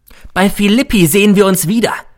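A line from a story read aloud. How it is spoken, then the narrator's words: Calling out. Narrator (German): rief mir noch zu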